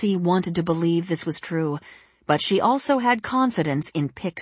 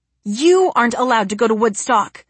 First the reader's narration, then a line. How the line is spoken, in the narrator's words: Jesse said, her voice growing belligerent